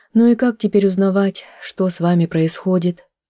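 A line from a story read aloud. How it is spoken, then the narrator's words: Sighing. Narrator (Russian): вздохнула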